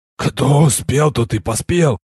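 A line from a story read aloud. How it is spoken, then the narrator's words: Calm hoarse whisper. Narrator (Russian): хрипящим шепотом невозмутимо поведал я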